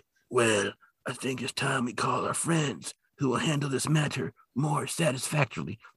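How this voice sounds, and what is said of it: Godfather-style mobster voice impression. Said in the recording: “the dude who talks like he's in a Godfather movie is like ... That was awful impression.”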